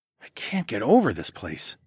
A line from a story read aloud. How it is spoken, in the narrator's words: I muttered